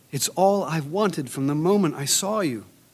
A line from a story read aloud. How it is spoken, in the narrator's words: sobbing